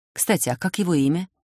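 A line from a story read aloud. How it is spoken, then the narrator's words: Whispered. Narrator (Russian): шепнула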